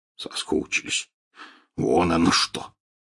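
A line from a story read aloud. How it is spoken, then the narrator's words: Scoffing snort. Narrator (Russian): хмыкнул Хагрид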